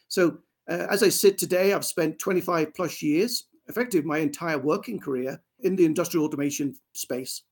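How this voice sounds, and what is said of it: English accent. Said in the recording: “As you could probably tell from my accent, I grew up in England.”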